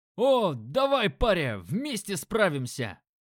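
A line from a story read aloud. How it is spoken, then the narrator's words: Enthusiastic shout. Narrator (Russian): Воодушевленно заорал мужик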